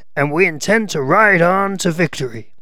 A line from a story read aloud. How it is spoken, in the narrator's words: exclaimed a Southern member